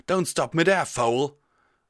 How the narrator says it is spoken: Tailwind shouted

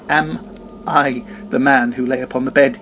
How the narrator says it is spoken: he cried upon his knees

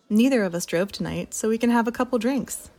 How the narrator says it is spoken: she exclaimed

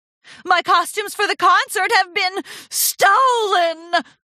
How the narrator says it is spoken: Rarity howled

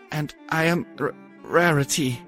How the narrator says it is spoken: Roses said in a shaky voice

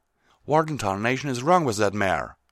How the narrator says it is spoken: Applejack snapped

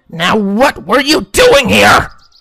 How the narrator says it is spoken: Rainbow shouted in a rage

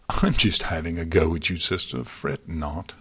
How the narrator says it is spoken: Luna said, chuckling

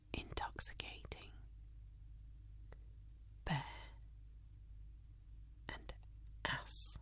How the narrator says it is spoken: he leans over and whispers into my ear

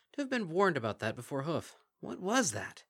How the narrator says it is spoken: The tatterdemalion beast chuckled

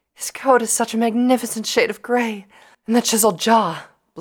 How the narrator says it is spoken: Blinky added breathlessly

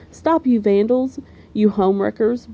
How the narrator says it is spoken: bawled Arthur

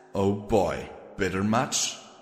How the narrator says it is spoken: She sighed

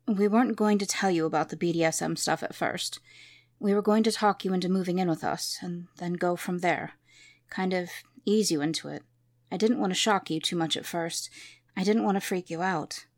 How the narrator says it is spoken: Caden calmly said

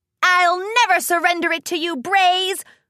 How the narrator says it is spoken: Rainbow shouted

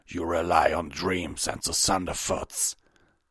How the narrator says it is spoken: Hasrock snarled

